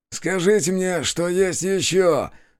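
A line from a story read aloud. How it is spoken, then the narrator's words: Predatory hiss through teeth. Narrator (Russian): С хищной усмешкой процедил один из стрелков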